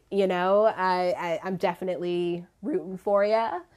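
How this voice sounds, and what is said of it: Voice cracks slightly. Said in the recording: “My voice just cracked a little bit.”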